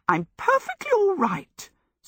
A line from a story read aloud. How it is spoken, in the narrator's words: Sophie said indignantly